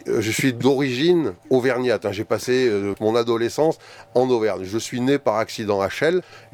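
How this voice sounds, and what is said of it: Slight southern French accent. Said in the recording (French): “vu l'accent que vous avez... il fait un peu sud quand même”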